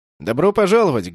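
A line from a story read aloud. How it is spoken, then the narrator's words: Loud, over engine noise. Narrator (Russian): громко произнес господин Аркот, перекрывая звуки затихающих двигателей космического судна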